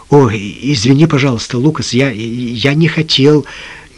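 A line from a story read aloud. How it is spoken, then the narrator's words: Stammering apology. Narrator (Russian): Джим запинаясь, произнес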